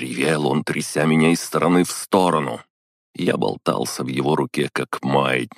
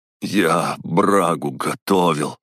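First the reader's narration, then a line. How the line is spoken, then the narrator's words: Hoarse strained words. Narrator (Russian): выдавил хрипло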